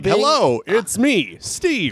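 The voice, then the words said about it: Cartoonish door-to-door salesman voice. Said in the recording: “he talks like a Simpsons character that's like a door-to-door salesman ... It's got that real Phil Hartman voice.”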